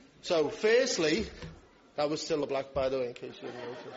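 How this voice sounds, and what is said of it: Usual voice. Nothing is said of it.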